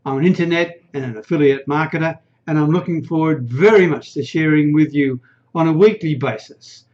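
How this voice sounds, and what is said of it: Australian accent. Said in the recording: “I'm an Aussie. You can probably hear that from the accent”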